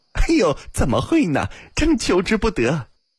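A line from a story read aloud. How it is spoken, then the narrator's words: Relieved, laughing. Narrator (Chinese): 阿金心中的疑虑顿去笑道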